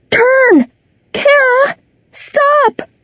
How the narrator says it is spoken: Kara was crying and screaming

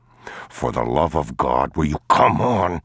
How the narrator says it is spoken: He hissed

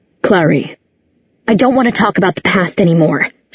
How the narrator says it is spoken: she said fiercely

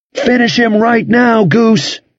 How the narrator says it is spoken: Steve yelled

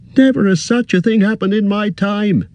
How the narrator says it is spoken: he cried, raising his hands in horror

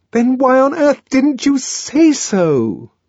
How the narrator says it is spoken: she cried

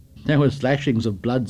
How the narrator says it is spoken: said Jack, laughing and shuddering

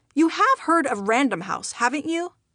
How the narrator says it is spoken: I asked

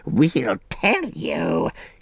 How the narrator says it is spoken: he croaked

